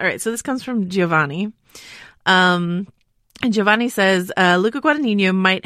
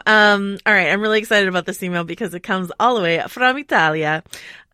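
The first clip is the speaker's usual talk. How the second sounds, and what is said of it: Put-on Italian accent on a word. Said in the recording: “I apologize to all of Italy for that um, accent.”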